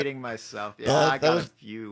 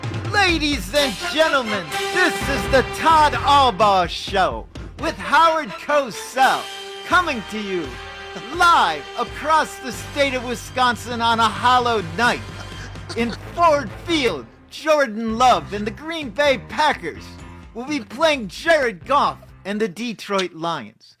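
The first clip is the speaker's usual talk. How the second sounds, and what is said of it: Howard Cosell impression, sportscaster voice. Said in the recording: “his best Howard Cosell impersonation. That's pretty good.”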